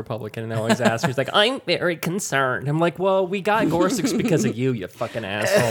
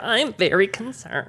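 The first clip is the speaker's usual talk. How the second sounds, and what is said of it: Imitates another person's voice. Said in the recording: “the Diane Rehm voice”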